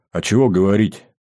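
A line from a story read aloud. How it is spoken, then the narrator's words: Heavy sigh. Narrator (Russian): тяжело вздохнул пограничник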